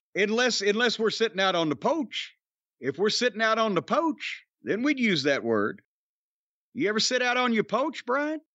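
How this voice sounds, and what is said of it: Put-on Southern US accent. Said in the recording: “I don't know what this accent is you're doing, but... That's what we do down south here.”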